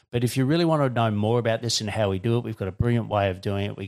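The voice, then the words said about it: Australian accent. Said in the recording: “I know I've got an Australian accent sometimes. It doesn't translate well around the world.”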